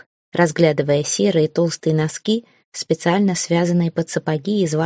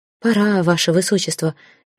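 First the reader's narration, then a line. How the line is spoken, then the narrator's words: Hoarse, excited announcement. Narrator (Russian): хрипло от волнения объявила Нина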